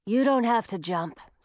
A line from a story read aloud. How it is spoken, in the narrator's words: said Audun